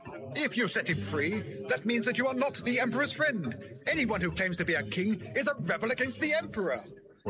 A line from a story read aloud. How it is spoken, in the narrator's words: the crowd shouted back